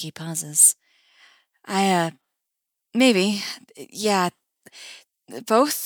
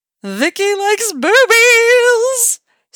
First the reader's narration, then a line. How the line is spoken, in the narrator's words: squeals the Steve part of her brain